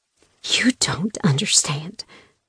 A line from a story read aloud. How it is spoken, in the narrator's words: I whispered, eyes filling with tears